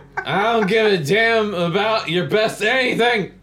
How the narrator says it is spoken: his dad yelled

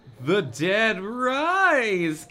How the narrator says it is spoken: Carrie groaned

